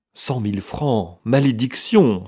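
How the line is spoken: Exclaiming. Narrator (French): s'écria Lord Crabbs

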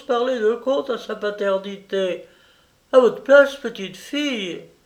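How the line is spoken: Shouted. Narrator (French): cria Barbelos

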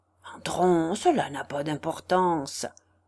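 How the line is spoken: Murmured in ear. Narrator (French): murmura-t-il à l'oreille

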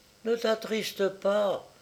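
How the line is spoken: Small animals murmuring. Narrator (French): murmurèrent les petits animaux

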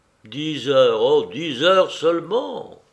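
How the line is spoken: Grumbled. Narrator (French): grogna Manzana

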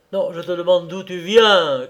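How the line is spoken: Shouted in pain and anger. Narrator (French): criai-je, ivre de douleur et de colère

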